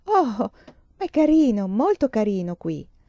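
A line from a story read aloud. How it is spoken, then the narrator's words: Girl's exclamation. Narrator (Italian): La ragazza esclamò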